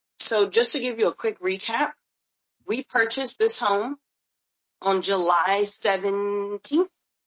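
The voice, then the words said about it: Unwell, strained voice. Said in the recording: “I'm a little under the weather, so my voice is not so great.”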